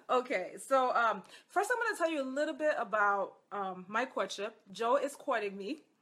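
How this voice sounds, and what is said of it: Hoarse, husky voice. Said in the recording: “excuse my sultry horse voice. I don't know why I'm hoarse”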